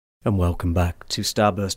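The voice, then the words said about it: Deep radio announcer voice. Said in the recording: “Oh, God, that sounded a bit deep, didn't it? ... That was almost like a radio voice”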